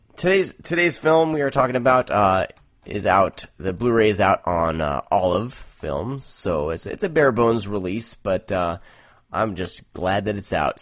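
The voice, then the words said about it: Hoarse, strained voice. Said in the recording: “I'm like getting hoarse here. I haven't talked in such a long time. I'm yelling at my kids so much, I'm like, can't even talk.”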